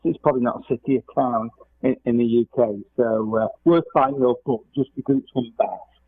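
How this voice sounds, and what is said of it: English accent. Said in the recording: “you may tell from my accent, I'm English”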